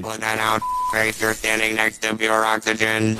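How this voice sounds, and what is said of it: Robotic mechanical voice. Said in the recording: “robot voice”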